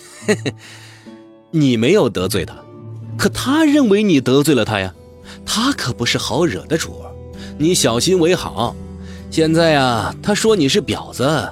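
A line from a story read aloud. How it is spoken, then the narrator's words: Chuckling. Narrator (Chinese): 张大厨笑了笑说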